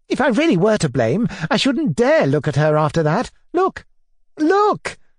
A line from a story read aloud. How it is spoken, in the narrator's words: exclaimed